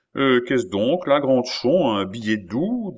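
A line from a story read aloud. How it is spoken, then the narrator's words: Plain. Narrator (French): dit le roi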